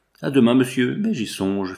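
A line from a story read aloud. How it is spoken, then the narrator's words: Laughing. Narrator (French): fit-elle en riant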